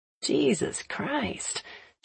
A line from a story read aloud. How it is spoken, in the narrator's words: she mumbles